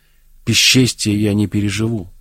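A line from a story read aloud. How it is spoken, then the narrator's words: Calm answer. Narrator (Russian): отвечала спокойно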